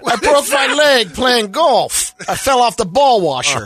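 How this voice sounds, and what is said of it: Rodney Dangerfield impression. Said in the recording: “Sort of Dangerfield”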